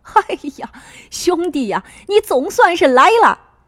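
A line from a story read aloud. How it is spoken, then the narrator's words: Happy loud shout. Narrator (Chinese): 张花秋一下子乐了，高兴的大喊道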